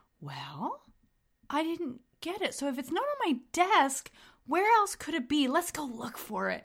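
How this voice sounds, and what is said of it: Sweet kindergarten-teacher voice. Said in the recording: “put on the kindergartner voice ... my elementary school teacher voice”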